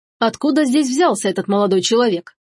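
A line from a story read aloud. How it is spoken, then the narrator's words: Stern question. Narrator (Russian): строго спросил он стражников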